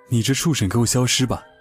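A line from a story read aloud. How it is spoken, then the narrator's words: Loud roar. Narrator (Chinese): 青子 大声吼道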